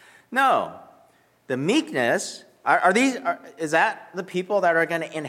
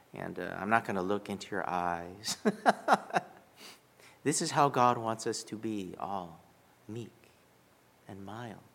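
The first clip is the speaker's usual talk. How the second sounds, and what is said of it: Soft, quiet, meek delivery. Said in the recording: “my voice is going to be nice and quiet”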